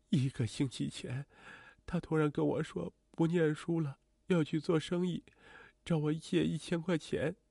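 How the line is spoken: Slow, grief-stricken. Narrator (Chinese): 母亲听闻儿子已去，哭得差点昏死过去，好不容易缓过来，才慢慢开口道

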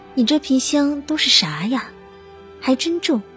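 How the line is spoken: Breathless, self-mocking. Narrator (Chinese): 气喘吁吁的他自嘲地说

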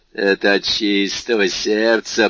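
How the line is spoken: Laughing out loud. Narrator (Russian): прибавил Кадрус, расхохотавшись

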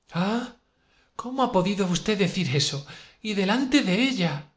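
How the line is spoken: Astonished exclamation. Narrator (Spanish): exclamó Sonia, asombrada

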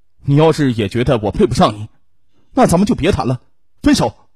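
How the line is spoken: Angry roar. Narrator (Chinese): 侯其华忽然有一种看错人的感觉，他大吼道

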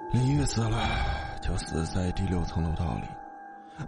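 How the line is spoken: Sighing. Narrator (Chinese): 父亲叹了口气

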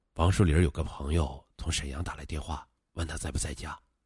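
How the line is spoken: Quiet. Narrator (Chinese): 刘喜山小声的说

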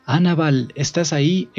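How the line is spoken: Exclamation. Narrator (Spanish): exclamé

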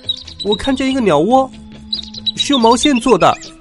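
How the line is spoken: Child's sudden cry. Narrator (Chinese): 一个孩子猛地叫起来

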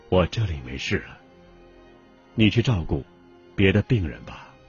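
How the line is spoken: Dying man, faint but clear. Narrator (Chinese): 弥留之际的周恩来 声音微弱而清晰的说

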